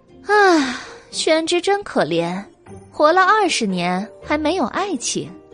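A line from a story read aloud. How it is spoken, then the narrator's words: Sighing. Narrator (Chinese): 白姬叹道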